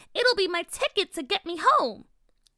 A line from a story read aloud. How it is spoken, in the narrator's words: the little fairy said excitedly